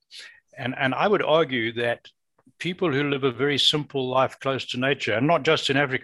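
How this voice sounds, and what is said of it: Noticeably different foreign accent. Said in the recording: “My accent's different. You probably picked that up. I spent most of my life in Africa.”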